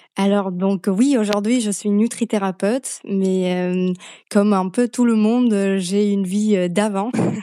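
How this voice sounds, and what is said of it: Slovak accent speaking French. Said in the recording (French): “d'où vient cet accent ... je viens de Slovaquie à la base”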